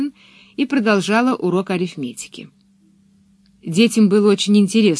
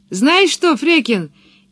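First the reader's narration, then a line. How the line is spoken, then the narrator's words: Shouting from a tree. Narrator (Russian): крикнула Пеппи со своего дерева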